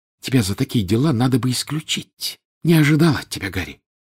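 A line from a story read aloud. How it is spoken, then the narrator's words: Close hissing. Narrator (Russian): Наклонившись к уху Гарри, она зашипела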